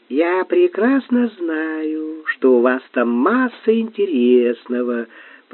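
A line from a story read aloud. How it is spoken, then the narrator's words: Drawled, odd intonation. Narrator (Russian): протянула Латея с непонятной интонацией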